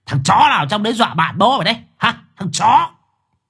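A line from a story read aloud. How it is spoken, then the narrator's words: Screaming curses. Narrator (Vietnamese): thằng Quý gào thét chửi bới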